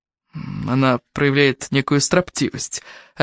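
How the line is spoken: Plain. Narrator (Russian): ответил Томас

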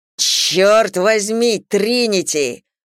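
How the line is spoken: Growled. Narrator (Russian): прорычал Зейн

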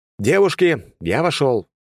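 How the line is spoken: Loud. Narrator (Russian): громко произнес я

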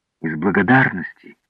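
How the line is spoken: Plain. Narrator (Russian): ответил Вольферль

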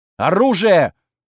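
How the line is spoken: Barked. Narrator (Russian): Рявкнул он

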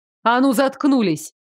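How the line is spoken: Startlingly loud bark. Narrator (Russian): рявкнула так, что сама испугалась

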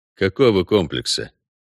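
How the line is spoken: Calm, indifferent question. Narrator (Russian): все так же спокойно и безразлично уточнил Геральт

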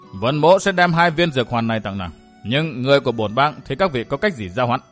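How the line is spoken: Cold. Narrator (Vietnamese): lạnh lùng, nói với Tam Hiểm

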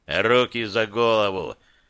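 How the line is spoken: Hoarse command. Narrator (Russian): хрипло приказал

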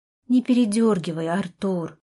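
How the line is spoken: Tired reply. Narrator (Russian): ответила я устало

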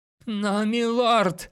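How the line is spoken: Whining. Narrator (Russian): заскулил Грэнд

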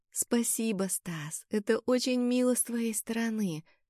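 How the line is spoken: Very tender tone. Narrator (Russian): сказала я самым нежным тоном, на который была способна

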